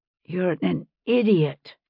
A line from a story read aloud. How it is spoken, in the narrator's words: she whispered